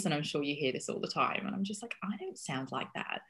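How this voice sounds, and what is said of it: Odd hybrid English accent. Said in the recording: “this odd accent because I've lived in Australia and I've lived in America and I've lived in England and I'm from Yorkshire ... weird hybrid voice”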